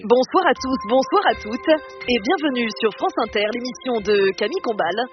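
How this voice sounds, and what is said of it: Radio news presenter voice. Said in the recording (French): “tu veux faire ta voix de journaliste? ... Tu veux que je fasse ma voix de journaliste?”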